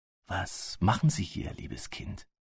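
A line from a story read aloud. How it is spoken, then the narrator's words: Whispered question. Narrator (German): fragte er flüsternd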